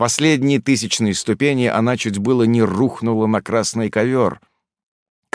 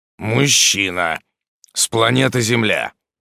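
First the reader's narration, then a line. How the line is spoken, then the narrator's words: Displeased demon grumbling. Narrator (Russian): пробурчал недовольный демон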